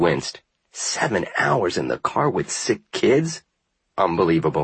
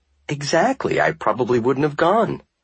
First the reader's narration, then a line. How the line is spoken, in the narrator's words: he laughed